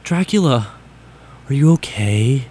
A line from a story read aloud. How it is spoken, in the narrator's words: I asked in a gothic voice